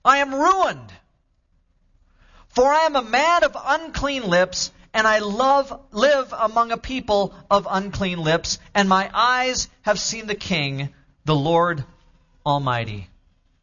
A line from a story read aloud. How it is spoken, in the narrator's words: I cried